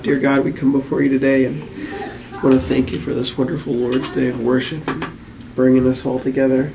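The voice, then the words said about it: Hoarse, quiet, strained voice. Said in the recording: “forgive me first off, if I don't enunciate a lot or talk very loudly. Like I said, I'm losing my voice”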